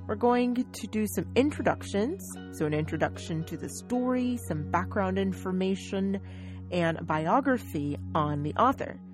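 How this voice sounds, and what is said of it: American English accent. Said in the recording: “I am an American. I'm from the United States, in fact. So, my accent is very different, or my dialect is very different.”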